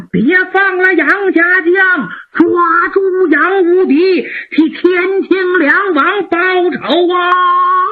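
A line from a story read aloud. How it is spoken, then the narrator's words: Repeated loud shouting. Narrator (Chinese): 辽国兵将 高喊 不住的高喊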